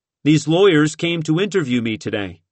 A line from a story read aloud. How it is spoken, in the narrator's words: he said